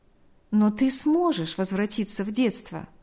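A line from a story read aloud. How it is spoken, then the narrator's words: Smiling. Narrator (Russian): улыбнулся он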